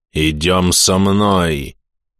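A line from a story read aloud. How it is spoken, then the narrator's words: Muffled exhaled words. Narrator (Russian): Глухо выдохнул череп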